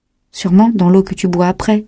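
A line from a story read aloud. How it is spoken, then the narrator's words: Plain. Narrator (French): dit Colin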